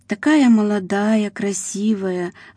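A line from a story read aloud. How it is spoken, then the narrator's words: Sighed. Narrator (Russian): вздохнула Ира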